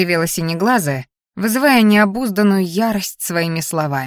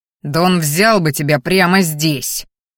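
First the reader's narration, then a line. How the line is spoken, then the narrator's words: Warning growl. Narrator (Russian): рыкнул предостерегающе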